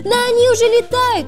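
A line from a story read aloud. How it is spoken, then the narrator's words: Shouted. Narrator (Russian): закричал Джинджер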